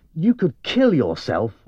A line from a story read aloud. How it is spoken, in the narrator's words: said angrily